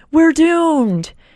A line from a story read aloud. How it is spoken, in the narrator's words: the man on the top of the wall sees the Terra team defeated and yells